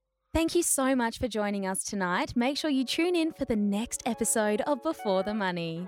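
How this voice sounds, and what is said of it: Newsreader presenter voice. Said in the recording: “in your favorite presenter voice ... I'm just going to do the newsreader one.”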